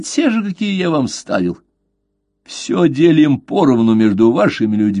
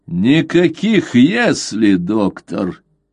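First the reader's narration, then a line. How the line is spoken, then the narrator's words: Rude interruption. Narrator (Russian): грубо оборвал его Истерлинг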